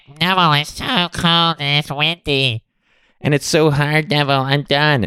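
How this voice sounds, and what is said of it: Whiny, complaining voice. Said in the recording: “I was being whiny. I'm going to do my new voice.”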